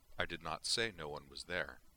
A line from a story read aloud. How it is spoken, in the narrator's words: Savick replied calmly